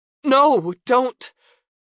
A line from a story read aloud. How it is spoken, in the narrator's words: cried Sally